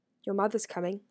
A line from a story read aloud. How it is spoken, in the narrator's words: he said quietly